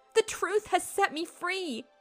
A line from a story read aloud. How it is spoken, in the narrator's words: the girl cried out into the quietness of the morning